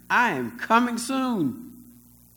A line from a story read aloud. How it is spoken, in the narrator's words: shouting